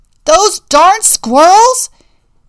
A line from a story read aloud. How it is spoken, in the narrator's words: yelled Old Man Fouquier